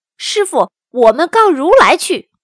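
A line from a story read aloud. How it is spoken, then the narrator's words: Crying out. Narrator (Chinese): 悟空叫了起来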